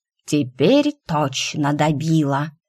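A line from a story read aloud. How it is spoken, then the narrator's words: Lazy hiss. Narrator (Russian): Лениво прошипела змея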